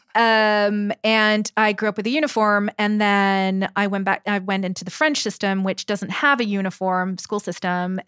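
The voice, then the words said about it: British accent. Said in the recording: “sometimes I have a British accent”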